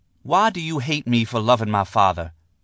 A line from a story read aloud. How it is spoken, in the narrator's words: she asked